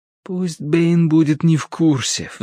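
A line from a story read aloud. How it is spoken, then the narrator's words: Pleading. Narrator (Russian): взмолился я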